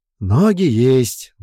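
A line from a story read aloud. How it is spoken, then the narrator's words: Sigh. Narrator (Russian): вздохнул Бран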